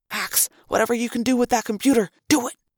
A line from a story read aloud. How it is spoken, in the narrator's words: Marco whispered urgently